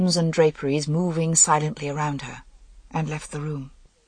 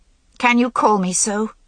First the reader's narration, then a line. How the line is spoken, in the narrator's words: She said bitterly